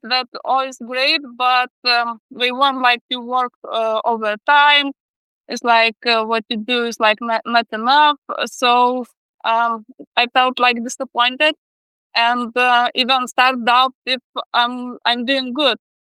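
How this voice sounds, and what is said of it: Speaks with a foreign accent. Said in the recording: “It's my accent probably”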